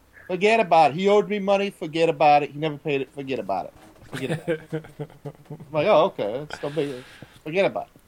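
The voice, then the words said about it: Put-on Italian accent. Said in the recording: “Nice Italian. Nice Italian accent”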